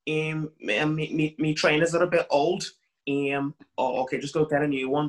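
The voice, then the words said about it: Put-on Liverpool Scouse accent. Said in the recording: “the Liverpool accent. That's really good... Liverpool Scouser”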